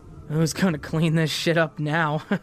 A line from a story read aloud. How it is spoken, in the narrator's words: He lightly laughs